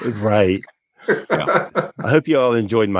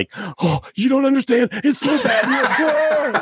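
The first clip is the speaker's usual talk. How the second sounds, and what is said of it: Impression of a TV character. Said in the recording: “my impression of alternate Riker”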